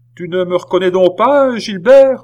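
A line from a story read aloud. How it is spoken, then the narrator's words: Shouting. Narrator (French): lui cria Philippe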